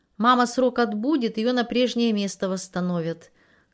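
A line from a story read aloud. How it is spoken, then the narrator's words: Plain. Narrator (Russian): как-то сказала Сильва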